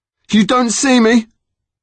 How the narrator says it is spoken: shouted as he came

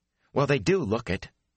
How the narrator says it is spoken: he added fiercely

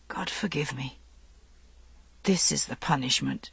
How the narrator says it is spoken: He whispered at last

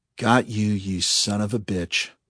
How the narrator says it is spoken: murmured Bug

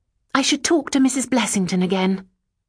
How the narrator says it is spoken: said, almost crossly

